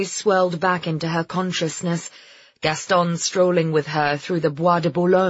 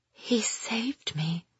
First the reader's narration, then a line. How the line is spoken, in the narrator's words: she whispered to herself